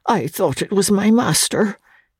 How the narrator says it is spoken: he muttered, in a confused, doubtful way

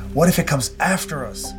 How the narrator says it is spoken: my cousin Bill cried

